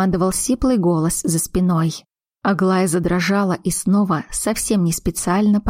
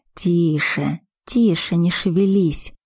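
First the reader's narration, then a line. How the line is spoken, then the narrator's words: Soft hiss. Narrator (Russian): прошипел Роман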